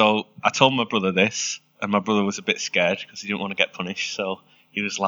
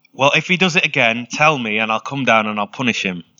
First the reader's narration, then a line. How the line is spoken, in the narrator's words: my dad shouts back